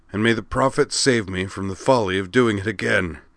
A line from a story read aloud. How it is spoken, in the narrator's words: Jacron groaned